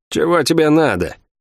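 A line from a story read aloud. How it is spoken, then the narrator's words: Grim, barely suppressed rage. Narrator (Russian): мрачно спросила Лавиани, с трудом сдерживая ярость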